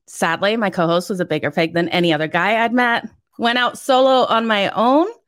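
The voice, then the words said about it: Foreign accent blending toward North American. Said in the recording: “Love your accent. I see it. You're fighting it. It's coming. It's becoming more Canadian, United States based now.”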